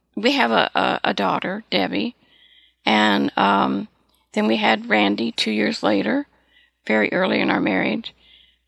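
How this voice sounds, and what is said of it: Dry voice. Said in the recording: “excuse my voice. I'm a little dry tonight.”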